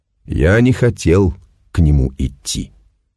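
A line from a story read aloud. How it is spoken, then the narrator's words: Gloomy reminder. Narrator (Russian): мрачно напомнил солдат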